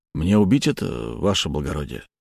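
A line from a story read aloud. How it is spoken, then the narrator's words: Uncertain question. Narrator (Russian): неуверенно спросил мой телохранитель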